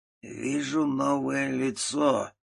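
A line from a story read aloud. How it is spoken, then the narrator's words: Creaky old man. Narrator (Russian): проскрипел старик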